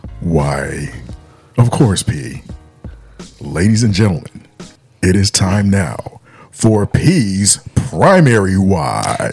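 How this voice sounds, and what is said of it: Smooth announcer-style radio voice. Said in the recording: “beautiful radio voice”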